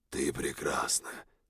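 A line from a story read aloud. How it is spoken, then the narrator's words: Quiet, eerie loud whisper. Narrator (Russian): произнес я тихо, но мой голос все равно жутким и громким шепотом пронесся по округе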